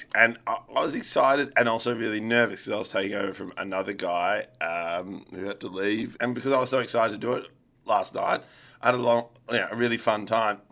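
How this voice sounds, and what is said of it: Stuffy, congested voice. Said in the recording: “why my voice is so stuffed ... my voice is so stuffed because I was so excited, riffing, talking to people”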